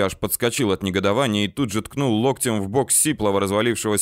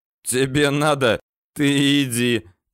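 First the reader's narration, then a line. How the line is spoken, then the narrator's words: Hoarse guffaw. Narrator (Russian): заржал сиплый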